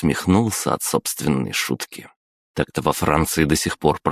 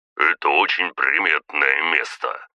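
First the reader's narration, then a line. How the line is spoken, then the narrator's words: Grumbled. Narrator (Russian): проворчал княжич Волконский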